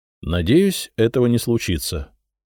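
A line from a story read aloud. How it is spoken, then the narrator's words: Calm. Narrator (Russian): спокойно ответил я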